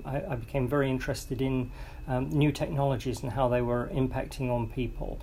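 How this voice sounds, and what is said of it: English accent. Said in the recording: “I still haven't lost the accent, I'm afraid, as people keep pointing out... I had to go back to England”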